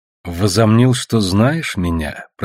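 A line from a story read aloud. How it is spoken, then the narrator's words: Through clenched teeth. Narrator (Russian): процедила я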